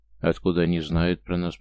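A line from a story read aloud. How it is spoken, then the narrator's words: Grumbling mutter. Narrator (Russian): пробурчал Идар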